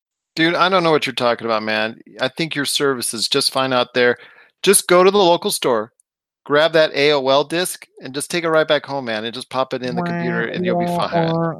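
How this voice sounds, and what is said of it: Put-on laid-back dude character voice. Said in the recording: “That's my dial-up impersonation.”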